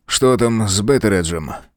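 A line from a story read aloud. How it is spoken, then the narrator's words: Muttering to himself. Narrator (Russian): пробормотал Олифант, словно разговаривая сам с собой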